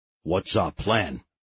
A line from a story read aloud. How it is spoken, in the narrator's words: asked Ernie, keeping his voice low